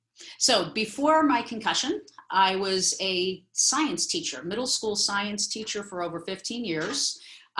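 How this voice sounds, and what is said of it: East Coast American accent. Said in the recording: “if you hear a east coast accent it's because i grew up on long island uh, glen cove new york”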